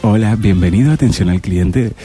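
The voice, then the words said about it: Telemarketer phone operator voice. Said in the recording (Spanish): “hacer una voz telefónica así de telemarketer ... Una voz telefónica de operador, así.”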